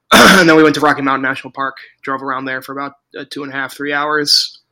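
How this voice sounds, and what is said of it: Worn-out, nearly lost voice. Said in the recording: “My voice is gone.”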